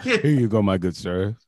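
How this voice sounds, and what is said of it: Deep put-on voice. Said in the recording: “My voice gets deep.”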